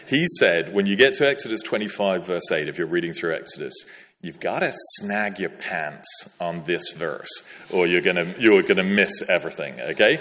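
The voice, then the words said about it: Deliberately bad American accent. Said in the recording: “My American accent's not very good... I should do my American accent very badly for posterity”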